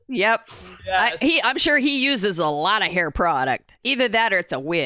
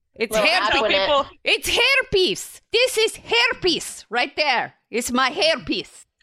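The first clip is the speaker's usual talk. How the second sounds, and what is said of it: Terrible Borat-like accented impression. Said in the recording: “a terrible impression ... kind of like Borat”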